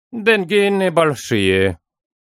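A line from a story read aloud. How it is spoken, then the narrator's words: Perfunctory grumble. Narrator (Russian): для порядка проворчал он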